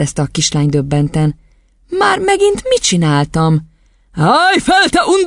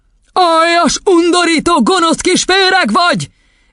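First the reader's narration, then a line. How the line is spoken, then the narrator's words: Full-throated furious bellow. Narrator (Hungarian): üvöltött Dorong teli torokból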